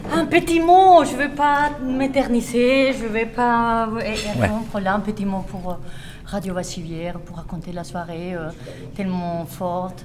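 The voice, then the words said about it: Slight Colombian accent in French. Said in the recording (French): “Je suis colombienne, crésoise, c'est pour ça le petit accent”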